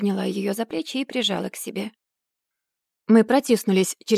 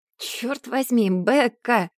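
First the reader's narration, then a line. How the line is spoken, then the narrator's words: Groaned. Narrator (Russian): простонала я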